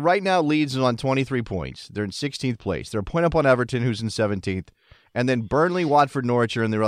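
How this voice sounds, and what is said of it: Usual voice. Nothing is said of it.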